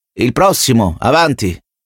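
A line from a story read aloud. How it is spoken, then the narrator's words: Worker shouting. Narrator (Italian): gridò il prolet del mestolo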